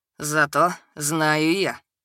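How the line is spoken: Tired. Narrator (Russian): устало сказал Лёша

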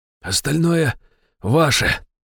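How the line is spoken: Hoarse rasp. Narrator (Russian): прохрипел я

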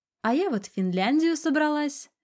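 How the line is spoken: Cheerful announcement. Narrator (Russian): весело объявила я

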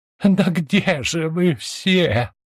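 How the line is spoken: Moaning. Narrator (Russian): простонала беглянка

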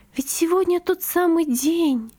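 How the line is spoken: Whisper. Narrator (Russian): прошептала она

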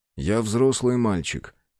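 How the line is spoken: Calm. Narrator (Russian): спокойно ответил мужчина

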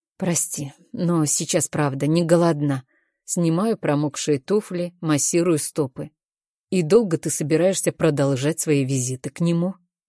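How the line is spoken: Deceptively calm voice. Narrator (Russian): Голос Дэйва звучит обманчиво спокойно

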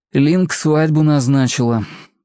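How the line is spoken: Sigh. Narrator (Russian): вздохнул Гоша

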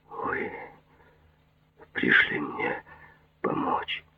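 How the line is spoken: Whisper. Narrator (Russian): прошептал Джад

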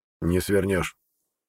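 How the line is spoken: Snort. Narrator (Russian): хмыкнул лекарь

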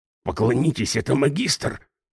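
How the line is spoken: Whispered. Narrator (Russian): прошептал

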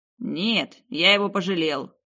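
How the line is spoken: Grumbled. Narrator (Russian): буркнул Алистер

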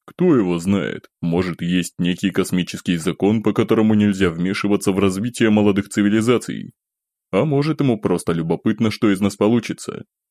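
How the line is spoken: Said, then short chuckle. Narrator (Russian): Сказав это, я коротко хмыкнул

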